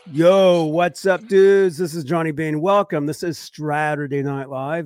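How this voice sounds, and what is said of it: Voice sounds off from illness. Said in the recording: “My voice sounds a little weird. I was super ill the past few days”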